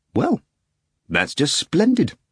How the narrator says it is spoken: Stravinsky exclaimed with relief

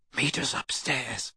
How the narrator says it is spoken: Harry whispered to Hermione

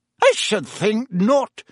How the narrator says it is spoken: said Professor McGonagall sharply

